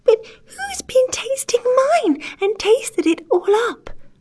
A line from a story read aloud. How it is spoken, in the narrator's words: cried the poor little teeny-tiny bear in a teeny-tiny voice, with the tears running down his teeny-tiny face